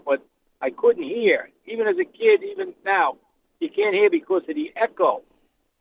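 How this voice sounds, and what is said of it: New York accent. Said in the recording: “I come from New York, if you hear the accent.”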